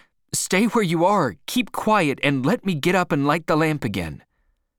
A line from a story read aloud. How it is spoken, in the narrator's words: shouted out